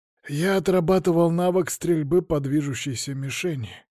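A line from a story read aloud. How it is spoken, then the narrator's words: Sigh. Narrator (Russian): Сергей вздохнул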